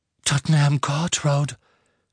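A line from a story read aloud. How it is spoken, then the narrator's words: Panting, breathless. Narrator (German): keuchte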